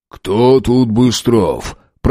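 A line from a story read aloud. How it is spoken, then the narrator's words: Smoky bass voice asking. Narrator (Russian): прокуренным басом спросил милиционер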